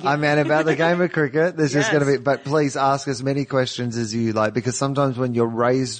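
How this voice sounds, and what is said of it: Australian accent. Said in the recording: “because you are Australian... I am Australian... That's why my voice sounds like this... That's why your voice sounds like that with the accent”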